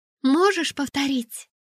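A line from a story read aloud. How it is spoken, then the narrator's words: Anxious question. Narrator (Russian): взволнованно спросила Лиса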